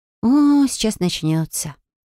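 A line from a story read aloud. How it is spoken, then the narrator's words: Sighing. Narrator (Russian): вздохнула Фелия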